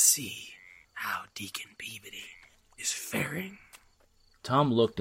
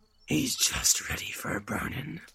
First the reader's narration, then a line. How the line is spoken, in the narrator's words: said the man in black, with a growl of triumph